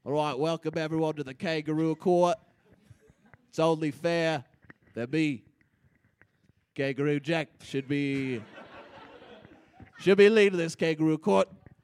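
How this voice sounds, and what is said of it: Wonky put-on accent. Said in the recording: “The altitude's making my accent a little wonky”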